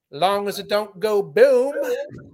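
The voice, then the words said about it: Put-on New Orleans Southern accent. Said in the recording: “the hint of a New Orleans accent ... That weird New Orleans, like it's Gambit, but also like just a Southern guy”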